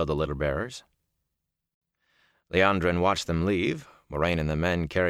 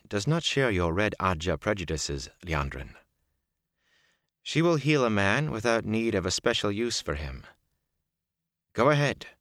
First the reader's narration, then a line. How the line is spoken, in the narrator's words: Moraine said calmly